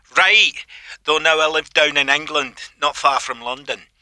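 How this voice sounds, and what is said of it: Scottish accent. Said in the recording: “you can tell where I'm from, right? ... Well, Scotland, I guess.”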